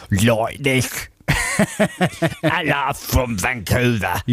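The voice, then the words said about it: Put-on Vancouver accent. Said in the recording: “How do you do a Vancouver accent? ... You say a boot, don't you?”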